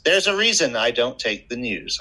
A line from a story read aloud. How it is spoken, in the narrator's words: I snapped